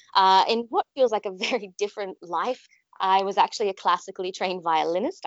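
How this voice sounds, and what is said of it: Australian accent. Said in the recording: “I'm originally from Sydney, Australia, in case the accent didn't give it away.”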